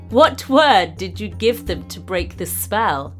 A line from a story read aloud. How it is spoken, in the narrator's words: laughed Kashnur